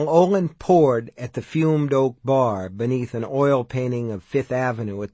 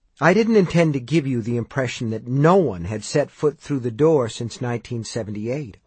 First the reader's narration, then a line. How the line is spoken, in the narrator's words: Olin replied